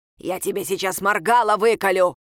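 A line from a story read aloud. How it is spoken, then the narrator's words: Raven's shout. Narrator (Russian): крикнул ворон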